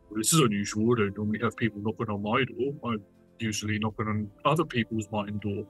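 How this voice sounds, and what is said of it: Very deep character voice. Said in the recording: “in a very, very deep voice”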